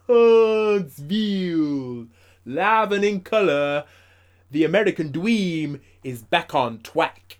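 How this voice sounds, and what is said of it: Impression of the American Dream. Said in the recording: “Good dream impression.”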